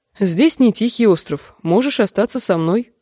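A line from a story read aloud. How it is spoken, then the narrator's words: Plain. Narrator (Russian): сказала она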